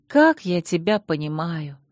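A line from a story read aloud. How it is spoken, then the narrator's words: Sighing. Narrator (Russian): вздохнула я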